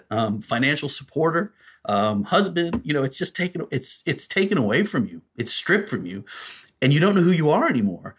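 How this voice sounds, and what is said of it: Voice choked with emotion. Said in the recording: “I get choked up”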